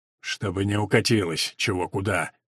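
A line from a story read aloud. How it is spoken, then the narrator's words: Grim joke to himself. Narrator (Russian): Мрачно пошутил про себя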